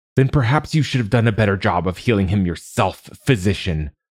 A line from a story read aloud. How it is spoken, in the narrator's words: snapped